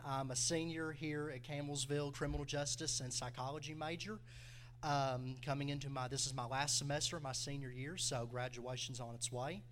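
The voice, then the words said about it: Speaks with a strong regional accent. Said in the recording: “this is my real accent. I've tried to change it, nothing has worked”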